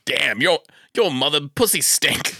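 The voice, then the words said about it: Bad attempt at Scottish accent. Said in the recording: “I was trying to do a Scottish accent right there. I don't know. But not successful. ... It was a bad Scottish.”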